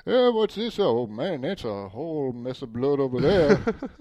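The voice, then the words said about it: Exaggerated Southern farmer voice. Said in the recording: “Farmer Bob coming in, smoking his corn cob pipe ... I have him sounding like he's some half-assed Southerner”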